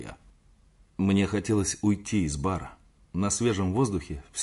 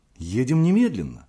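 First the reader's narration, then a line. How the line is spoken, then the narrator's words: Exclamation. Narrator (Russian): воскликнула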